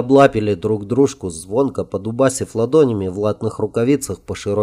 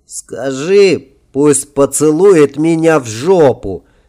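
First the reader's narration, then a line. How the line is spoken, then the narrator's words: Joyful laughing reply. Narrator (Russian): ответил король, и они оба радостно расхохотались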